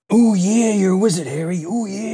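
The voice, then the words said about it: Imitates a wrestler's distinctive voice. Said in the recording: “voice impersonation of, you know, Macho Man Randy Savage ... he's got this distinct voice ... Macho Man Randy Savage as Hagrid”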